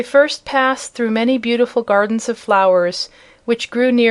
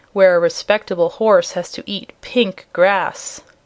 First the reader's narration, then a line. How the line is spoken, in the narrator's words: he grumbled